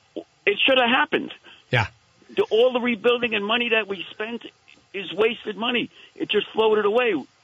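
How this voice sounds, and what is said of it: Slight New York accent. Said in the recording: “You have a little bit of an accent, which tells me you were not born here.”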